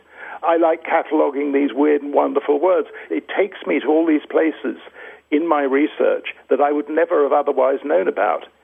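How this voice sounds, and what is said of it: Posh English accent. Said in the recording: “you have a posh accent. I suspect that you have some sort of Oxbridge roots.”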